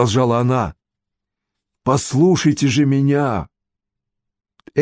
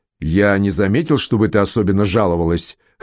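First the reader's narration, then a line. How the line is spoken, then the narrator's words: Snorting. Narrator (Russian): хмыкнул родитель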